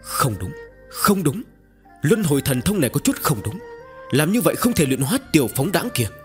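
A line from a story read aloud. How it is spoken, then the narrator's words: Shouted. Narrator (Vietnamese): Mộ Thất Thanh la lên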